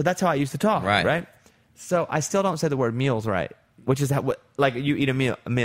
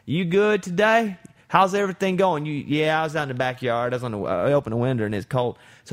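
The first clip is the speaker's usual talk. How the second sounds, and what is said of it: Imitates another person's Arkansas accent. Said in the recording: “I have such an accent because I'm from Arkansas ... I'm gonna do an impression of him, which is how I talked before I went to college”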